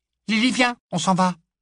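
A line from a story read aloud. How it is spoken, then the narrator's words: Small piercing voice. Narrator (French): dit-elle d'une petite voix perçante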